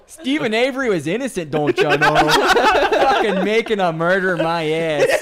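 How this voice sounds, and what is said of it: Put-on Wisconsin accent. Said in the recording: “Found another accent he does. ... Wisconsin.”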